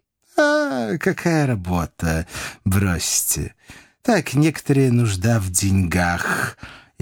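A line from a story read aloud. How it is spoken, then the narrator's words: Sigh. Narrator (Russian): вздохнул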